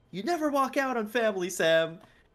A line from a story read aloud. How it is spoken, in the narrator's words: he yells